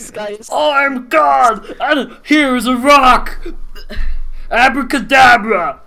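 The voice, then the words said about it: Mock divine God voice. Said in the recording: “my spot on Jesus impression.”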